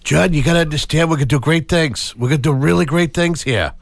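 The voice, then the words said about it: Bad impression of a president. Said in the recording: “that was a bad impression.”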